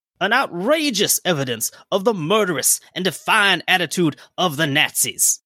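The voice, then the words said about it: Generic Southern US politician accent. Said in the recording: “That was my generic Southern congressman, because I can't do a specific Texas accent.”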